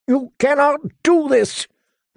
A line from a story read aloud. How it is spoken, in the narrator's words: the prisoner shouted at their retreating backs